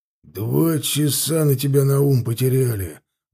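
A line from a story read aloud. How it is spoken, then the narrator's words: Grumbled. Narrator (Russian): ворчал Силович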